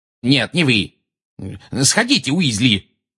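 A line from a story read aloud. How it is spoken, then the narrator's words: Barking shout. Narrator (Russian): гаркнул Фадж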